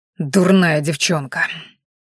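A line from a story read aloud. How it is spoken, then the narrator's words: Exasperated outburst. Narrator (Russian): не выдержал Ранхаш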